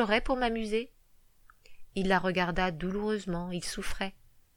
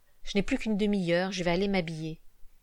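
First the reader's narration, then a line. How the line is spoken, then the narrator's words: Sighing. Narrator (French): il soupira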